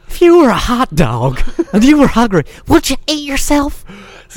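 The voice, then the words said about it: Zany Will Ferrell-style Harry Caray impression. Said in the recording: “Will Ferrell's Harry Carey ... such an impersonation of an impersonation ... such a zany impersonation of Harry Carey”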